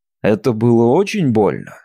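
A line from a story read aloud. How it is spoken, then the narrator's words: Plain. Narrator (Russian): спросил я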